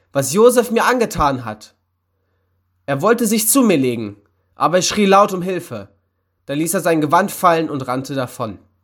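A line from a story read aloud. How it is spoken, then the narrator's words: Indignant woman's cry. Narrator (German): rief die Frau empört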